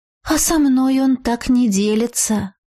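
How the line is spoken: Slightly envious sigh. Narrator (Russian): Немного завистливо вздохнула Радомира

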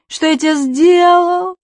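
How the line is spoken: Sobbing. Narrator (Russian): рыдает Префен

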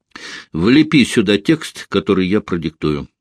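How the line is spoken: Plain. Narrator (Russian): сказал он

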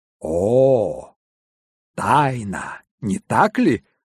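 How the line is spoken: Joyful exclamation. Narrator (Russian): воскликнул я, радостно потирая руки

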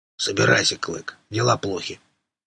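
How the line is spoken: Calm. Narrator (Russian): рвач говорил спокойно

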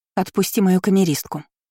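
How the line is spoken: Calm. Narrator (Russian): произнесла спокойно

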